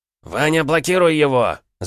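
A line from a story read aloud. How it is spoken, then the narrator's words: Shouted. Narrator (Russian): закричал в этот момент Шахтер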